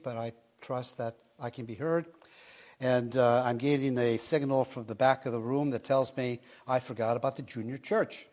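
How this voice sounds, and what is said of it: Slightly raspy voice. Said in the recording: “apologize for my voice. It's a little raspy,”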